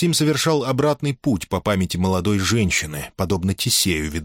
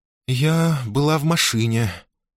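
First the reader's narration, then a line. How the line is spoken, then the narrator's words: Trembling voice. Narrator (Russian): дрожащим голосом сообщила Виктория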